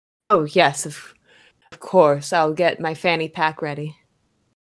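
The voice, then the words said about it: Put-on character accent. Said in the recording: “I love the accent work.”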